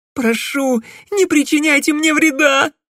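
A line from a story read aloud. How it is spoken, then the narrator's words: Frightened gasp. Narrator (Russian): испуганно выдохнула Селина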